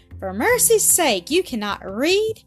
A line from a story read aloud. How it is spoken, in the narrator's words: cried the lady in her surprise